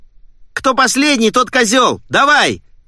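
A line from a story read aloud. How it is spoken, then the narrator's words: Yell. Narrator (Russian): заорал Диппи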